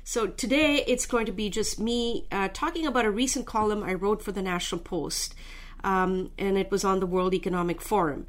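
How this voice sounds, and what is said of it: Congested, underpowered sore-throat voice. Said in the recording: “excuse my voice a little bit ... I seem a little underpowered today ... a bit of sore throat and nasal congestion”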